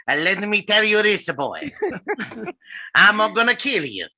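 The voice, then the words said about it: Imitates another person's accented voice. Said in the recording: “that impression ... haven't gotten just right ... pronunciation of son of a, that's some un of a bitch”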